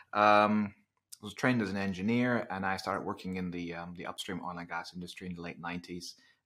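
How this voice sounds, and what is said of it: Slight Dutch accent in English. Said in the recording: “I'm originally from the Netherlands, which kind of explains the slightly different accent.”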